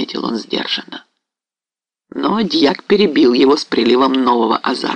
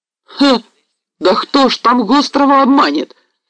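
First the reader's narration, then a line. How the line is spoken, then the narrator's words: Loud cry, clerk. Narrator (Russian): вскрикнул шумно дьяк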